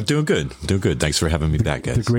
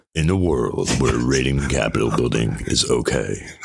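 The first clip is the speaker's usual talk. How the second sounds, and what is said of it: Deep movie-trailer announcer voice. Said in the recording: “The greatest radio voice of all time... a fucking deep voice”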